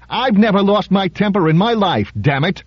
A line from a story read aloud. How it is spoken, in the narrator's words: shouted Reuben just as hotly